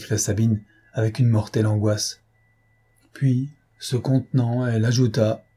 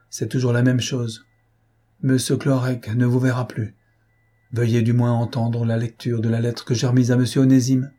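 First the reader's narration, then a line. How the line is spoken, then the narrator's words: Old servant sighing. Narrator (French): dit le vieux serviteur en soupirant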